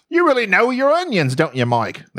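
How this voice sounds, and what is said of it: Put-on Australian accent. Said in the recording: “There I go. Australian”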